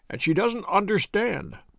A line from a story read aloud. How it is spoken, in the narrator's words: he said